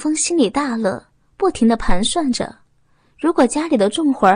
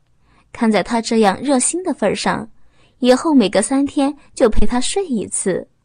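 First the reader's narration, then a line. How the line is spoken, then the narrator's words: Flirtatious, coquettish laugh. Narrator (Chinese): 浪笑一声，骚媚的说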